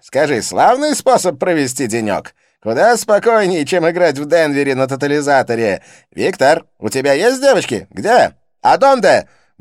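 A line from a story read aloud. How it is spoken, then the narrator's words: Loud question in Spanish. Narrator (Russian): громко спросил по-испански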